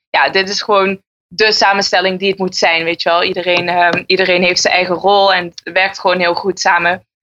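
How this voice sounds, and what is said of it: Maastricht regional Dutch accent. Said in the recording (Dutch): “Want ik hoorde het een beetje aan jouw accent. Eh, dat verschilt nogal met die van Martijn ... ik kom uit Maastricht”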